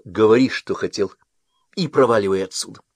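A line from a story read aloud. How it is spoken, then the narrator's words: Sharp. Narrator (Russian): констеблю резко сказал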